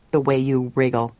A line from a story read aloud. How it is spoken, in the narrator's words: addressed sternly